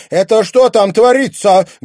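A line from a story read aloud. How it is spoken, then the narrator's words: Angry roar. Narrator (Russian): гневно взревела буфетчица Агриппина Львовна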